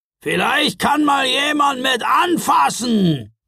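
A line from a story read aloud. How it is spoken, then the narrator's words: Gruff bluster. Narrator (German): polterte er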